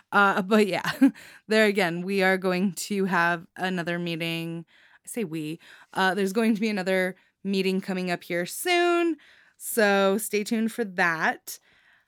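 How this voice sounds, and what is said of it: Out of breath, winded voice. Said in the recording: “I'm out of breath. ... stop and catch my breath ... me screaming into the open air by myself”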